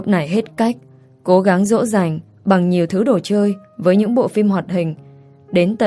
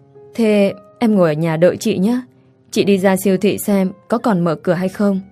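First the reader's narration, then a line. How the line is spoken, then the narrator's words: Sighing. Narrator (Vietnamese): Tôi thở dài nói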